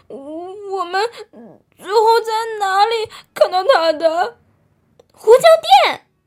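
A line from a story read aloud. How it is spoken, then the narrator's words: Shouting together. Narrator (Chinese): 他们一起大喊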